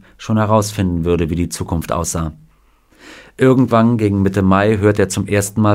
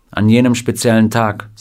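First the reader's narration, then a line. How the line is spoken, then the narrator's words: Plain. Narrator (German): sagte Scotty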